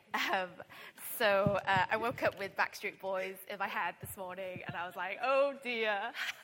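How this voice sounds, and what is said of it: Croaky voice. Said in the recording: “Excuse the croaky voice. I went to karaoke last night, and I think I sung a bit too hard.”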